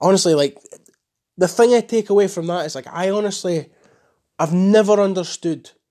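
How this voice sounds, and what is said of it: Usual voice. Nothing is said of it.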